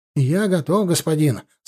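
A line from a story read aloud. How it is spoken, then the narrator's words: Happy, muffled by mask. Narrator (Russian): сказал он счастливым голосом из-под маски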